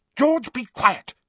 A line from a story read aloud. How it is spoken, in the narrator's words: snapped Mrs